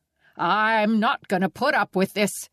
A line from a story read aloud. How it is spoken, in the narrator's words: sputtered